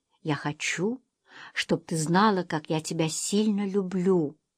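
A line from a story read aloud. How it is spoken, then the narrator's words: Whisper. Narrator (Russian): прошептал Берт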